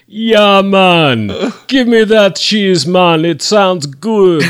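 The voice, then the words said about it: Exaggerated put-on Jamaican accent. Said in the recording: “what kind of awful Jamaican accent”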